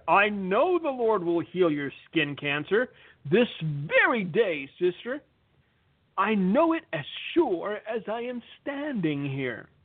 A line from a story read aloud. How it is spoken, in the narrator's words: the faith healer thundered